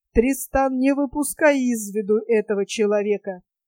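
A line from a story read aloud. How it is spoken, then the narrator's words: Continued coldly. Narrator (Russian): Оливье продолжал холодно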